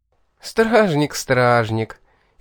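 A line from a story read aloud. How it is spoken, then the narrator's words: Reproachful, through laughter. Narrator (Russian): С некой укоризной она выговаривает сквозь смех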